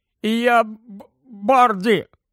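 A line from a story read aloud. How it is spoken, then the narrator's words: Groaned. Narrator (Ukrainian): застогнав Рон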